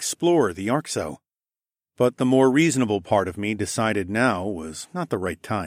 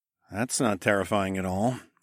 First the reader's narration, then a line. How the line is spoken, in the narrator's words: I muttered